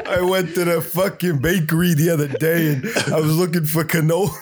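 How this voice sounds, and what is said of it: Put-on New York accent. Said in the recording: “New York accent.”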